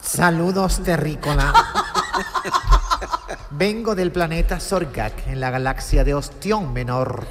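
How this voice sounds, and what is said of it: Put-on Valladolid Spanish accent. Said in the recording (Spanish): “hablando con acento de Valladolid”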